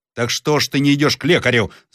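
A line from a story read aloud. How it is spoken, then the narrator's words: Shouted. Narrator (Russian): закричал Зарядев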